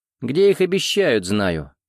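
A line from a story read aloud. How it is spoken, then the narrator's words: Snort. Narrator (Russian): хмыкнул Макс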